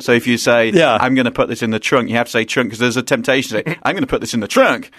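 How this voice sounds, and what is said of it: British English accent. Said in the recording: “with a British accent.”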